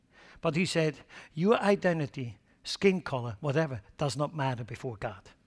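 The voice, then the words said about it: Swiss accent. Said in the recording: “I will always keep my Swiss accent.”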